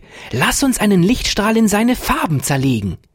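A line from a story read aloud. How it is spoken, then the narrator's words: Joyful call. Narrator (German): rief Ferdinand voller Freude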